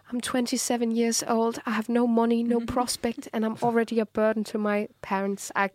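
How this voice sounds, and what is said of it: English accent as Charlotte, Pride and Prejudice. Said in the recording (Danish): “Det er en rigtig god accent, du lavede der ... Jeg er bare Charlotte fra Pride and Prejudice”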